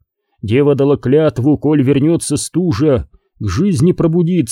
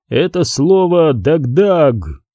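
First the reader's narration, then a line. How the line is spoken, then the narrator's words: Quiet, tired. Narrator (Russian): сказал он тихим, усталым голосом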